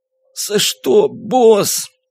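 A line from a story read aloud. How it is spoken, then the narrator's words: Groaned. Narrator (Russian): простонал Брукс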